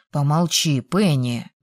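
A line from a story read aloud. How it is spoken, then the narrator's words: Gentle rebuke. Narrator (Russian): мягко осадил девушку брат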